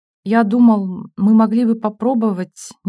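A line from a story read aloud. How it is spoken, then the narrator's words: Hesitant. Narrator (Russian): неуверенно сказал он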